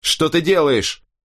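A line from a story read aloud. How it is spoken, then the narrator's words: Shout. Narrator (Russian): крикнул я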